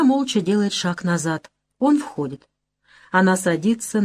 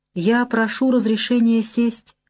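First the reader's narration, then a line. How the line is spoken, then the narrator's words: Timid request. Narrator (Russian): говорит он робко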